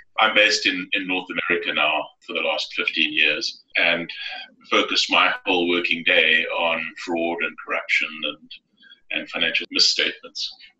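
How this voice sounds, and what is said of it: South African accent. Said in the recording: “you could probably tell from the accent, I'm from South Africa originally.”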